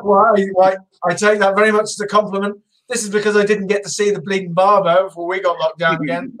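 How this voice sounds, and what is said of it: British accent. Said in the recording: “the British accent”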